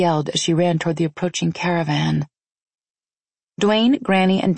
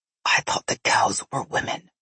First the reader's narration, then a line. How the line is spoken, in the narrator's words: Nikolai whispered in my ear